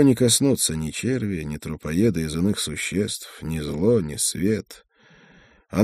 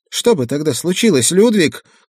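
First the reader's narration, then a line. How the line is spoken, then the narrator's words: Shouting, losing composure. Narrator (Russian): крикнула она мне в лицо, теряя разом все свое спокойствие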